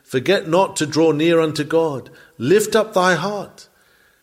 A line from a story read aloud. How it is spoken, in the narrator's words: The inward life pleaded